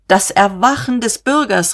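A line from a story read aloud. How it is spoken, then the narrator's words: Exclaimed. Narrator (German): rief er aus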